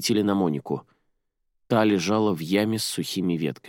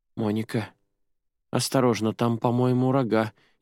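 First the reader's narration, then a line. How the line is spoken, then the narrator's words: Frightened. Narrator (Russian): испуганно произнесла Джуди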